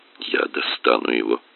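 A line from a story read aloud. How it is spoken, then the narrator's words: Muttering. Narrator (Russian): бормотал я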